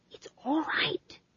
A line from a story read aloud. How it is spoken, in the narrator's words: she whispered